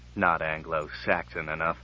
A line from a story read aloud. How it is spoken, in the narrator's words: muttered Brand